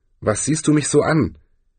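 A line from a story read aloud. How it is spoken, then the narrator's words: Wizard growling. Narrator (German): knurrte der Zauberer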